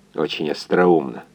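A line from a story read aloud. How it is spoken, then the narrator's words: Muttering through teeth. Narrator (Russian): пробормотал сквозь зубы инженер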